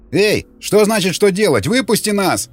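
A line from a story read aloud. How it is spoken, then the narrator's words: Yell. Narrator (Russian): заорал еще один пленник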